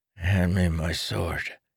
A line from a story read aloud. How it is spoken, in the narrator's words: he mumbled